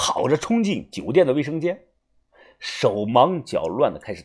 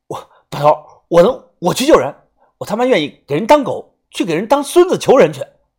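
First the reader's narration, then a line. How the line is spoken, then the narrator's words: Passionate shouting. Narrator (Chinese): 我拍着自己的胸脯大喊着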